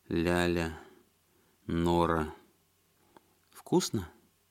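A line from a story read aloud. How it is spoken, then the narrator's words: Gentle, young woman asking. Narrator (Russian): ласково спросила девушка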